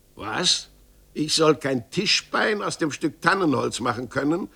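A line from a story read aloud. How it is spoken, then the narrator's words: Angry exclamation. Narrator (German): rief Meister Gottlieb ärgerlich aus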